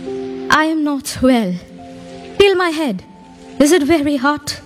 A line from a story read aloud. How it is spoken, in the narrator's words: Postmaster, in a weak voice, replied